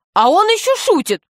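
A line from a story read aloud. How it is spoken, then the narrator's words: Indignant man. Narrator (Russian): сказал возмущенно мужчина с крыльями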